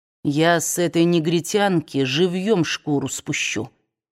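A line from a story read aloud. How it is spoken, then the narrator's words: Said quietly. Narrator (Russian): тихим голосом сказал он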